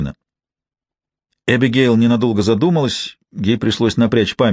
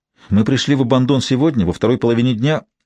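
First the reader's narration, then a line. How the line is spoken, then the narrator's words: Quick explaining. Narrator (Russian): быстро принялась объяснять девушка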